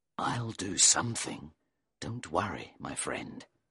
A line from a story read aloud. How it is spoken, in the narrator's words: he said under his breath